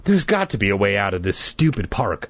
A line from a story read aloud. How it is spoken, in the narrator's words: I cried angrily